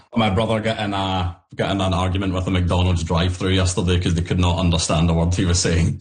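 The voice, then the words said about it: Scottish Glasgow accent. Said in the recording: “Apologies up front for the accent... I live in Glasgow, Scotland... I'm Scottish”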